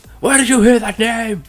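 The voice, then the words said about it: Rough Christian Bale Batman impression. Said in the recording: “Good impression. ... That's an awful impression. ... Sound an like Christian Bale. ... I need more phlegm for that.”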